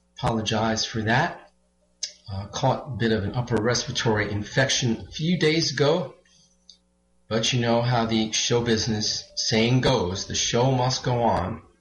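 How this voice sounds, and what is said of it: Somewhat hoarse voice. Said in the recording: “tell my voice is somewhat hoarse.”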